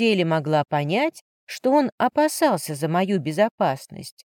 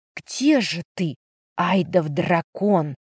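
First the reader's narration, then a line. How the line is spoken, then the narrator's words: Whispered. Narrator (Russian): прошептала я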